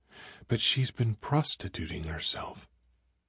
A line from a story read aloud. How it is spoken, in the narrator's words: She drew a deep, painful breath and whispered